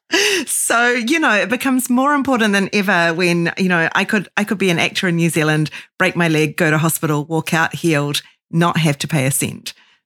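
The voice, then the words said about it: New Zealand accent. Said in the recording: “me with my New Zealand accent”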